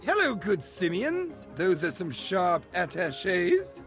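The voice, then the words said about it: Put-on British accent. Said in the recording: “I sounded British.”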